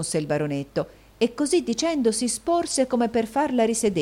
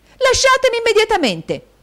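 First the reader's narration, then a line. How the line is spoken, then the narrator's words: Shouting. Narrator (Italian): gridò Caterina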